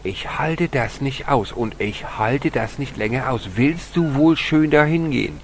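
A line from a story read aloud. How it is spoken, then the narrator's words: Angry shout. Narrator (German): wurde sie böse und schrie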